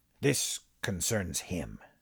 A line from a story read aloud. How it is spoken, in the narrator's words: Armin said, quietly, patiently